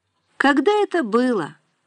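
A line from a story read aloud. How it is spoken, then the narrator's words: Tired reply. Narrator (Russian): устало откликнулась Нина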